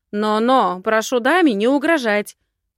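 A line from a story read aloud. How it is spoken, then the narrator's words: Barked reply. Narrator (Russian): гаркнула в ответ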